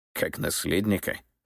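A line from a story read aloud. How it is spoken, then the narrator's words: Skeptical snort. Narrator (Russian): хмыкнул Руслан Александрович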